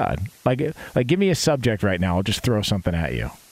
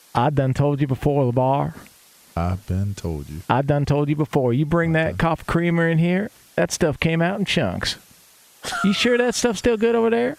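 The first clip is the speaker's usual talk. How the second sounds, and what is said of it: Put-on Southern American accent. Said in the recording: “impersonate a southern accent ... Give me one sentence of a southern accent ... That's country to you? ... Was that southern? ... Yeah, southern.”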